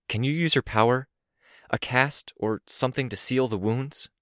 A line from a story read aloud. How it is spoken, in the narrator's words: My voice was tense as I asked